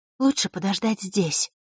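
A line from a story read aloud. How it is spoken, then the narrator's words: Whispering. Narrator (Russian): шепотом обратилась к нему Василиса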